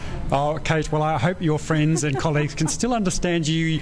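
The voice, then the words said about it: Australian accent. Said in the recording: “Australian accent ... Do you notice my accent ... a good part of our accents have rubbed off on you”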